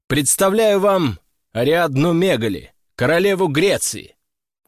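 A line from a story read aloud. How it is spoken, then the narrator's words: Loud announcement. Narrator (Russian): громко объявил я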